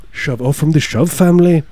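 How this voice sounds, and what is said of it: Put-on Irish accent. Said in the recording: “It's my Irish accent. ... It's perfect.”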